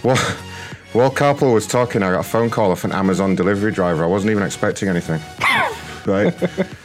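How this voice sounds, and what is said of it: Out of breath, panting. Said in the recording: “I'm out of breath now ... So I just had to run.”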